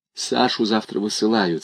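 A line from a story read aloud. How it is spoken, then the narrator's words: Plain. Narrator (Russian): сказала Софья Александровна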